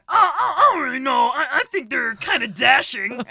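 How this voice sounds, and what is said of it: Cartoon minion character voice. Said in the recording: “I can do a half decent impression of, you know, Pain and Panic from Hercules”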